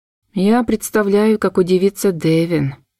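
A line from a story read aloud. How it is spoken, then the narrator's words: Gloomy mutter. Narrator (Russian): мрачно пробормотала я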